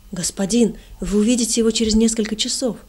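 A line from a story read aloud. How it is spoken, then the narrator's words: Excited shout. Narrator (Russian): взволнованно выкрикнул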